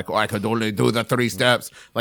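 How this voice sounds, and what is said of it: Put-on Lithuanian accent. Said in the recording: “It was a Lithuanian accent”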